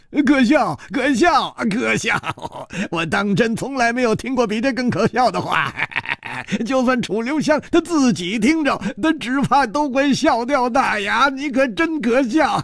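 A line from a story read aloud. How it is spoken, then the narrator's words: Loud laughter. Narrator (Chinese): 冷秋魂哈哈大笑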